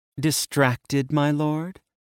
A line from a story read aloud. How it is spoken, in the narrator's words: purred, amused